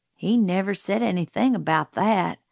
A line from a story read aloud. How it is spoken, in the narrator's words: Jim muttered